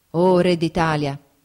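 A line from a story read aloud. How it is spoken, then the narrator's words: Exclamation. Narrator (Italian): esclamò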